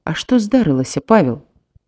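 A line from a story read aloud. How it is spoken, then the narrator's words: Whispered question. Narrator (Belarusian): шэптам спытаў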